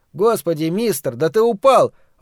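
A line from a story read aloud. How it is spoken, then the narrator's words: Exclaiming. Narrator (Russian): воскликнул Том Каллен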